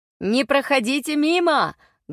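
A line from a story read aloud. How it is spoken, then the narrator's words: Loud speech. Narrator (Russian): Громко говорили одни торговцы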